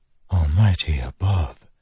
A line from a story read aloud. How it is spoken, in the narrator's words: Navani whispered